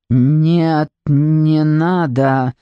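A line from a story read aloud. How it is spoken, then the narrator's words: Trembling, strained voice. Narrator (Russian): дрогнувшим голосом выдавил из себя их предводитель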